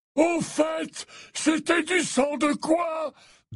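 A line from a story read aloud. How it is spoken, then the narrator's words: Loud, over chiming clock. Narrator (French): demanda Dumbledore d'une voix forte pour couvrir le carillon de l'horloge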